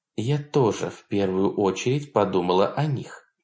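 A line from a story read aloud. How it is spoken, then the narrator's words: Quiet. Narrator (Russian): тихо сказала Мацука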